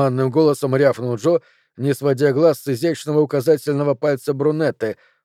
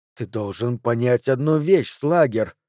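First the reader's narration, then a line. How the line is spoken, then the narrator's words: Woman's hiss. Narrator (Russian): прошипела брюнетта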